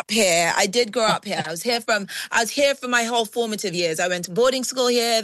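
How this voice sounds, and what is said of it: British accent. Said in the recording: “I did notice the accent. I did notice that accent. ... the British really does live in me”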